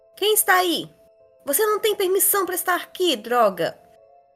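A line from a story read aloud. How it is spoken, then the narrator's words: Shout. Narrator (Portuguese): gritou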